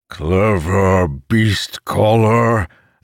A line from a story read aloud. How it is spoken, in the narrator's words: the monster bellowed